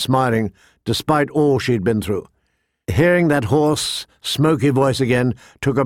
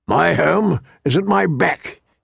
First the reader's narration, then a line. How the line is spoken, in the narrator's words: he said gruffly